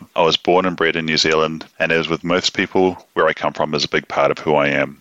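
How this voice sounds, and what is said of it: Softened New Zealand accent. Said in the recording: “with my accent softening half a world away, I'll always be a Kiwi”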